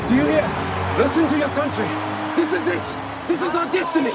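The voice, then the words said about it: Convincing put-on Afrikaans accent. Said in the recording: “doing actually a pretty good Afrikaans accent.”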